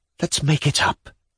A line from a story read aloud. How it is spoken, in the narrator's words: he whispered once more